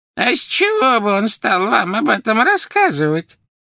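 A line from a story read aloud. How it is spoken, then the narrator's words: Creaky voice. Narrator (Russian): проскрипела Мюриэль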